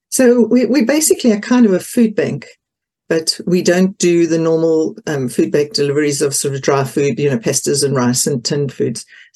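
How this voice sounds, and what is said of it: Non-UK accent. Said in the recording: “clearly you're not UK accent.”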